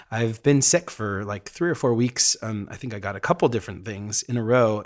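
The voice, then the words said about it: Raspy, worn-out voice. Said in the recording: “my voice sounding so raspy and weird ... it's kind of wiped my voice out a little bit”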